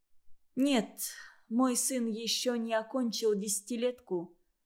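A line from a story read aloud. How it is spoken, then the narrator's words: Sad reply. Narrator (Russian): ответила она грустно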